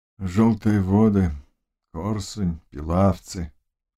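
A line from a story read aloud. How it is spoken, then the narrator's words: Said in a muffled voice. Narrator (Russian): глухо произнес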